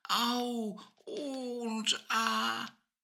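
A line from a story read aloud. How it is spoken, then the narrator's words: Groaning. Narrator (German): stöhnten sie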